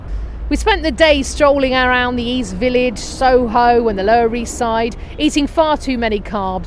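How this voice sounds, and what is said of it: English accent. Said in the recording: “Can't you tell from my accent ... We're not New Yorkers ... we were, of course, English and we'd moved from Manchester”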